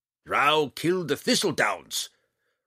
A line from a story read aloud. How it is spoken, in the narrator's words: Roddy roared